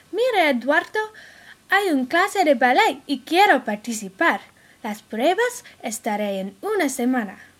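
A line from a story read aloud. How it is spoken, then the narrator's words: Exclaiming. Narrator (Spanish): Camila exclamó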